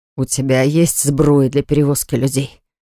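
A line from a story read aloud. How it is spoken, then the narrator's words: Relieved wheeze. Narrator (Russian): Просипел Льюис с облегчением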